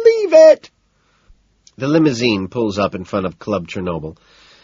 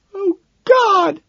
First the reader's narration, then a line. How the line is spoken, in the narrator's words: she wails